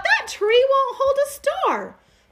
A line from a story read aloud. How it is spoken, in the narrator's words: Little Bear, standing off afar, cried out